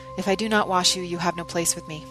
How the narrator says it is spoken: I just said wearily

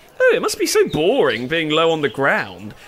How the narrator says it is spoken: giggled Simone

